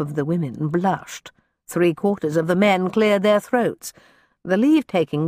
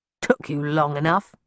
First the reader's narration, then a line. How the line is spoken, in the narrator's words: growled